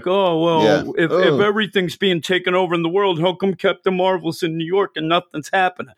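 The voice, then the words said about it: Mocking voice of an internet troll. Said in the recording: “my voice of awful people on Twitter ... my big impression ... the troll people voice”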